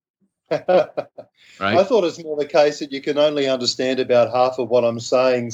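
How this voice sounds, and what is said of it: Australian accent. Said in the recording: “just being an Aussie, you just sound tough automatically ... you give him an Aussie accent”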